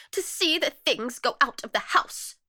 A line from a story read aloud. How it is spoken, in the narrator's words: wailed the other